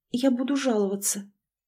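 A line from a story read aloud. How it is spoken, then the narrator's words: Barely audible breathy whisper. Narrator (Russian): Мария, чувствуя, как подгибаются ноги, еле слышно выдохнула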